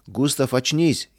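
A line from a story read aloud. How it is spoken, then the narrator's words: Frightened group shouting. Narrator (Russian): испуганно закричали вдогонку товарищи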